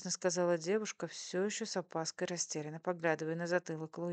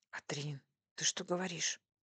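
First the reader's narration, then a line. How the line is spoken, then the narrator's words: Husband's whispered scolding. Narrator (Russian): шепотом ругался муж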